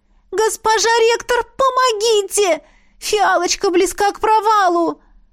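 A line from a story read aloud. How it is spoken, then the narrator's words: Silent mental scream. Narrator (Russian): Мысленно завопила я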